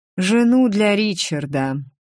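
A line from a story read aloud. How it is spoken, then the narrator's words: Sighing imperial voice. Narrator (Russian): вздохнул голос, в котором я узнала императорский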